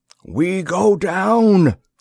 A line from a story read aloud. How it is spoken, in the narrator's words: Asaki yelled